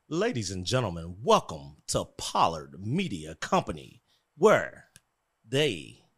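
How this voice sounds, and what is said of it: Announcer-style intro voice. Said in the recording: “your intro voice”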